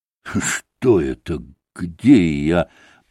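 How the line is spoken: Confused mumble. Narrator (Russian): пробормотал он

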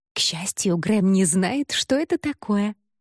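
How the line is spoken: Giggling. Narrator (Russian): хихикнула

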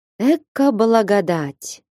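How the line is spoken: Sighed. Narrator (Russian): вздохнул Михаил Васильевич

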